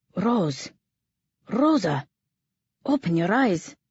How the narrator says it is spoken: his voice so strained, so frantic

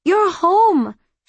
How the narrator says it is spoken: exclaimed

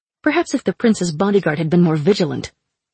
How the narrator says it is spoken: I snapped back

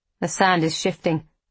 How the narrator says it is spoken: Elias says

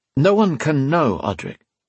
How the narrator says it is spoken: he went on, making an effort to keep his tone calm

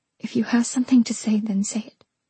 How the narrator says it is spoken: I whispered

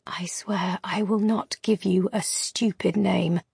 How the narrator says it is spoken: I whisper

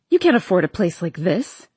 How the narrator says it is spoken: she scoffs

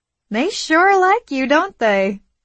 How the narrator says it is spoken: Elena said, and she giggled again

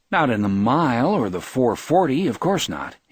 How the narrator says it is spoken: he replied

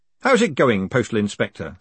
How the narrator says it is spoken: said Moist cheerfully

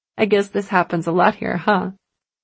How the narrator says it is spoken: Mary laughed

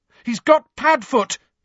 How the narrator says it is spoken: he shouted

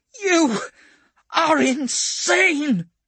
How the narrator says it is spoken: screeches Dantine

